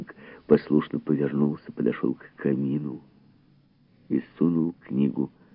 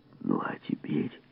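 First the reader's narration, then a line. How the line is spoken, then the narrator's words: Whispering in ear. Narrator (Russian): шептал на ухо Фабер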